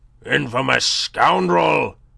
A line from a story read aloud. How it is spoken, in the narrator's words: he roared